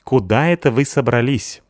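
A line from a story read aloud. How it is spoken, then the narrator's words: Stern question. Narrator (Russian): спросил строго Стасик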